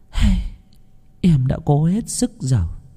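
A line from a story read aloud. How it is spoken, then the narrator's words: Sighing. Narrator (Vietnamese): cô ba chỉ thở dài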